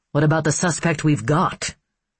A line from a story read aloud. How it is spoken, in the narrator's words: Mitch asked irritably